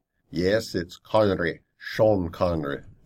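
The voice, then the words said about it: Bad Sean Connery impression. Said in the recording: “Sorry about that bad impression.”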